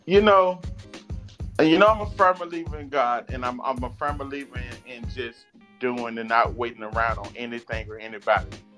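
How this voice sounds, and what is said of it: Southern US Georgia accent. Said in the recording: “with my accent ... people gave me everywhere but Georgia ... Louisiana ... Jamaica ... England ... maybe a little Louisiana because of our accent”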